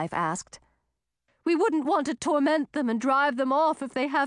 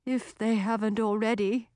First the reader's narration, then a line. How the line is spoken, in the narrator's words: murmured Clifton